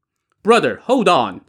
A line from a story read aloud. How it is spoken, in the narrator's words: Song Jiang shouted back